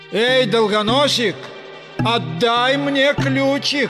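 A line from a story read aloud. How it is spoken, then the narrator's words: Yelling. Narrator (Russian): Карабас завопил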